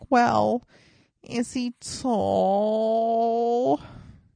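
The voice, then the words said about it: Bronx-accented impression of a mother. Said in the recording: “She's from the Bronx. Is that a good impression of my mom? ... I think it sounds like her.”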